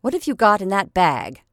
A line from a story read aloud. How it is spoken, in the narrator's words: said she rather sharply